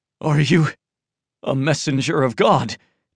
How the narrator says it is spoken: Tian Ming asked, panting, his voice full of awe

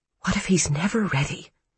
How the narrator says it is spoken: she whispered

